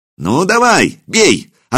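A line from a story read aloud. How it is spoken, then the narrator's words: Excited shout. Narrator (Russian): азартно выкрикнул Илья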